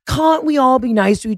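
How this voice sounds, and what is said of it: Boston accent with hard A. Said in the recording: “that hard A came in on your Boston accent... What is it with people from Boston where all of a sudden you have a hot A, but then you have like a real soft A that makes you British?”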